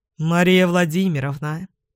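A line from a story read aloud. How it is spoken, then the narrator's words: Plain. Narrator (Russian): говорит он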